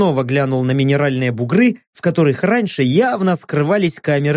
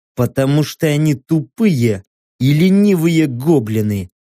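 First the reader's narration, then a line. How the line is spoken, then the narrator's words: Through gritted teeth. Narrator (Russian): процедил я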